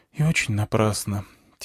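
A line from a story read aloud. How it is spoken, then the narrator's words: Quiet woman's reply. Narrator (Russian): тихо ответила женщина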